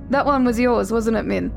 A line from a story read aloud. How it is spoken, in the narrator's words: Jonathan laughed awkwardly into his plate, rambling at lightning speed